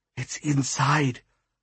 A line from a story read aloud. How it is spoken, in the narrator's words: Mom whispered